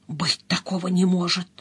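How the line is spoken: Whisper. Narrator (Russian): прошептал

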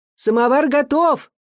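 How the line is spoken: Shouted, mother. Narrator (Russian): крикнула мать

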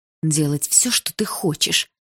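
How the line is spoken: Through gritted teeth. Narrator (Russian): сквозь зубы проговорила

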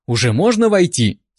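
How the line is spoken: Slightly irritated question. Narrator (Russian): слегка раздраженно спросила она

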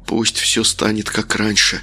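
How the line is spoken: Whisper. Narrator (Russian): продолжал он шептать

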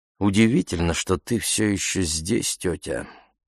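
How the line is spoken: Quiet. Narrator (Russian): сказала Ефемилу тихонько

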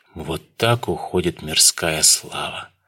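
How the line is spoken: Mock-sorrowful. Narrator (Russian): притворно-печально покачал головой Дронго

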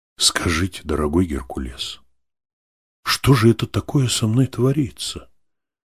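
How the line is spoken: Trusting, gentle address. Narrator (Russian): Обратился он ко мне доверчиво и ласково

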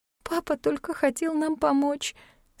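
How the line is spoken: Hoarse tearful strained voice. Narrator (Russian): сквозь слезы хрипло выдавила Ивон

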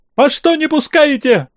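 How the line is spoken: Hysterical shriek from crowd. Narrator (Russian): истерично взвизгивал голос из глубины толпы

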